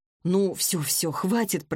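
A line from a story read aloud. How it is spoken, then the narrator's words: Muttered. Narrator (Russian): пробормотала я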